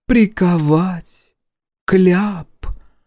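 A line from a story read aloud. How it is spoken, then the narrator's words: Slow drawl, feigned thoughtfulness. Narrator (Russian): медленно протянула зеленоглазка, делая вид, что задумалась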